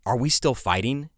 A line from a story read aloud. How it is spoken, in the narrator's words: Yossi asked